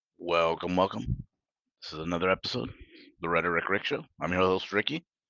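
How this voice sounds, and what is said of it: Robotic monotone voice. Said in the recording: “talking like a robot?”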